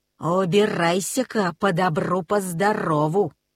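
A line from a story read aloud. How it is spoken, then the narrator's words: Dog growling. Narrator (Russian): зарычала собака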